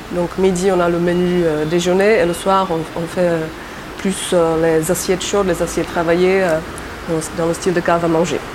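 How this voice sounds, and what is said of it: Slight Czech accent in French. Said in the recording (French): “J'entends comme un accent dans ta voix. ... J'ai un petit accent, oui. Euh, je suis tchèque d'origine. ... je garde mon petit accent”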